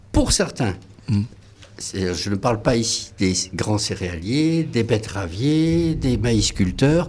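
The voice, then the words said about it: Southwestern French Landes accent. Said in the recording (French): “moi je viens des Landes ... c'est ça l'accent. C'est ça l'accent.”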